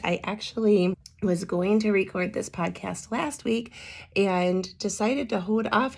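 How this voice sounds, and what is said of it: Damaged, strained speaking voice. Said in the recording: “Despite how I sound, I am so sorry about my voice. ... hoping that my voice picked up ... I hope you can suffer through my voice. That smoke from the Canadian wildfires has just really done a number on me”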